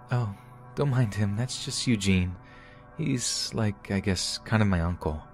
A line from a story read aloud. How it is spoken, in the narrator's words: she said in her soft voice